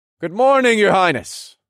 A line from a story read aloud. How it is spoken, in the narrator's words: I greeted in a loud voice